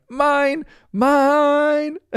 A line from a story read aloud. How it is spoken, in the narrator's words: running across the yard yelling